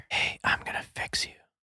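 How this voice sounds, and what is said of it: Whispering. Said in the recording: “This guy's whispering to fans all day?”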